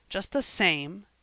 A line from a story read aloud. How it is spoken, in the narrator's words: said Marner, more bitterly than ever